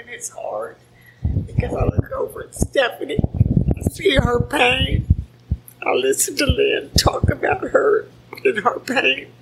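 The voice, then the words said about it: Quivering, emotional voice. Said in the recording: “my voice is quivering.”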